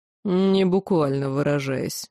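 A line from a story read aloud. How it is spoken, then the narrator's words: Demon's snort. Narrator (Russian): хмыкнул демон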